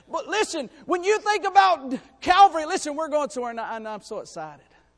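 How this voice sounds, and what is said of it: Excited, raised preaching voice. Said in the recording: “I get a little excited and I raise my voice.”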